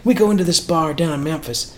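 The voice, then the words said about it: Imitated Southern American accent. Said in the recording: “He's got that southern accent.”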